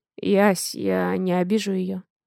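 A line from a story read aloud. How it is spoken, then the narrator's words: Hoarse voice. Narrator (Russian): хрипло говорит Дима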